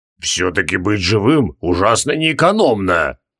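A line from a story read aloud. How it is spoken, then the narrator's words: Creaky voice from behind. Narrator (Russian): проскрипели сзади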